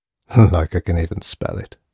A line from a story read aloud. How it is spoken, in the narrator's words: chuckled Burns to himself